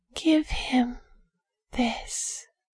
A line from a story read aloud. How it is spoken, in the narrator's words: whispered